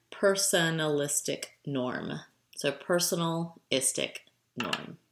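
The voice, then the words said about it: Slow, deliberate speech. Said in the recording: “I said that really fast, so let me say it slower.”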